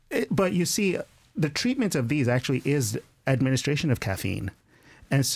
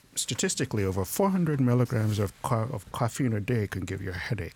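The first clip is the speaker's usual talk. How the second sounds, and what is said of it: Radio announcer voice. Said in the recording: “I use the radio announcer voice for that.”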